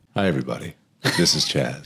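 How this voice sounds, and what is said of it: Polished radio announcer voice. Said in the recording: “It's so good, the voice... the radio voice”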